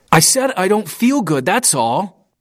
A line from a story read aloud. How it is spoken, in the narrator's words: yelled